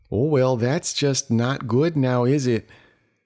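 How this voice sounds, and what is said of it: Put-on Minnesotan northern accent. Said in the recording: “That's Minnesotan. Or Alaskan. ... It's just a northern accent.”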